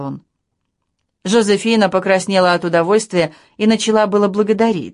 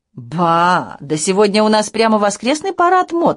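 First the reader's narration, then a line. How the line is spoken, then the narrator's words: Exclaiming. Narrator (Russian): воскликнула она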